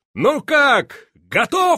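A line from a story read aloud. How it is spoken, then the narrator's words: Shouted. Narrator (Russian): он крикнул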